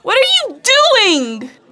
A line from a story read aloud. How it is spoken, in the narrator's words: Sarah shouted